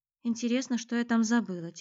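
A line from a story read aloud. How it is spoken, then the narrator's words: Quiet young woman's mutter. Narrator (Russian): тихо пробормотала девушка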